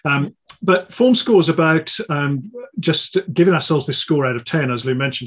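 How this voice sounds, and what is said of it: Croaky voice, slight Brummy accent. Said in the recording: “I must apologise uh, for how I sound. And I'm not referring to the slightly brummy accent. I always have that, but I've got a bit of a cold, a bit of man flu, so I'm a bit croaky.”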